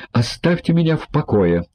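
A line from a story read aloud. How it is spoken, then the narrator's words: Exclaimed. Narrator (Russian): воскликнул человек в черном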